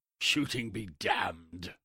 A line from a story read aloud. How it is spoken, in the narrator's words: I thought I heard him muttering something like